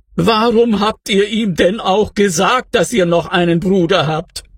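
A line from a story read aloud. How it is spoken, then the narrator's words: Whining. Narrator (German): jammerte er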